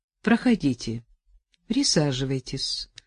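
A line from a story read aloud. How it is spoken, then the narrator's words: Dry offer. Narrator (Russian): сухо предложил Воскобойников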